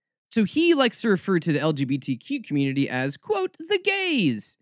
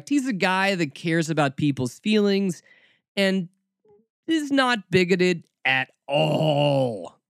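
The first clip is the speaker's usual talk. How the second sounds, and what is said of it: Sarcastic tone. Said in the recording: “when I do that with my voice, that's me being very sarcastic”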